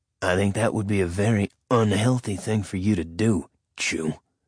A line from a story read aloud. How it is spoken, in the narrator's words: Nick said, his voice dropping an octave